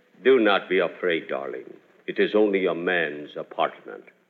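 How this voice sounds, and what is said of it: Romantic imitation of a TV personality. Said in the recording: “That fella on television who calls himself the Continental... Boy, is he romantic... who am I imitating?”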